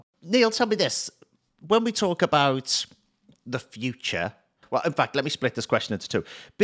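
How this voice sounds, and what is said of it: Hybrid Liverpool and New Zealand accent. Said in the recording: “I'm not sure a robot could ever catch mine. Born in Liverpool, spent years in New Zealand. It's a horrible hybrid”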